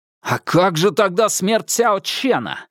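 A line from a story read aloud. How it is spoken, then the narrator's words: Angry spiteful speech. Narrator (Russian): злобно сказал Хуан Цзинфэн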